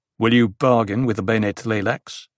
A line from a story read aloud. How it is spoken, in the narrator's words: The Gola asked, his voice a sharp intrusion